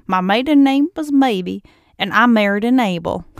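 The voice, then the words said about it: Poor imitation of southern accent. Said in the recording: “she has a southern accent, so I'll try... I'm equally laughing at my accent, which I haven't worked on in a very long time. It was horrible, but funny.”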